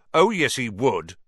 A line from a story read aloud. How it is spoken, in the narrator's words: said Ron, even more loudly than Dean